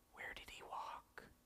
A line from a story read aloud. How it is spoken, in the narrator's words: the witch doctor asked in a whisper